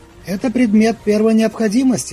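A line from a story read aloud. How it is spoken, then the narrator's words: Dry reply. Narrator (Russian): сухо ответила Светлана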